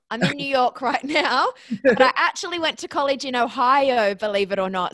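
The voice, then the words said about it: Australian accent. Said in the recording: “I'm Australian. That's where the accent comes from.”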